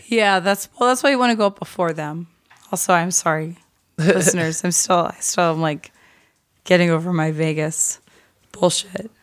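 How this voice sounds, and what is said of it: High, boyish voice recovering from hoarseness. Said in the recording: “My voice is a lot better than it was. Slayer will tell you it was bad. ... But it kind of sucks now. It's not like sexy raspy anymore. ... now I sound like a 12-year-old boy.”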